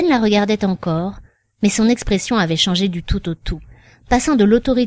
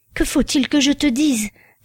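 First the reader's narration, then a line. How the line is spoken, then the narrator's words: Distraught voice. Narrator (French): demanda-t-il d'une voix égarée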